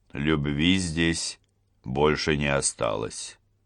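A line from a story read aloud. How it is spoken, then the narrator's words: Calm. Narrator (Russian): произнес он спокойно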